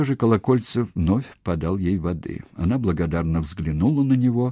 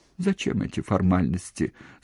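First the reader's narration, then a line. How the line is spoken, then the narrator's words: Tearful. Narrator (Russian): сквозь слезы сказала она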